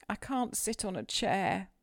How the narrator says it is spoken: sobbed the boy

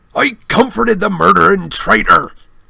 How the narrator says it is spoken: Hagrid roared

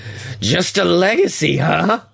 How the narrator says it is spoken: She growls

